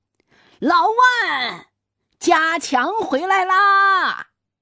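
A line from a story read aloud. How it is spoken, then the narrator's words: Loud, nervous shout. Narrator (Chinese): 老鲍……心就虚了，就咧着嗓门喊老万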